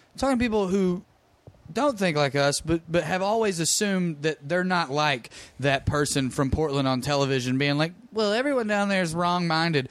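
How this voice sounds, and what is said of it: Slow-talking regional accent. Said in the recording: “With that accent? ... you talk slow”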